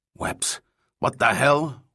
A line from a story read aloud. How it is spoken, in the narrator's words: Juan growled